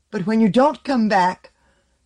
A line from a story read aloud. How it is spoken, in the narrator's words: the girl cried out, under the pressure of the terror that had entered her with autumn's end, the fear of coldness, of death